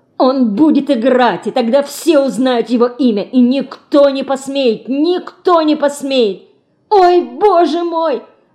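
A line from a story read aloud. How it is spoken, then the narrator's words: Excited squeal. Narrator (Russian): взвизгивает Федорка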